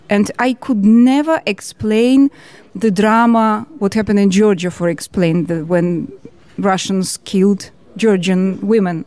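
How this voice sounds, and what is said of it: Georgian accent. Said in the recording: “my accent, Georgian accent”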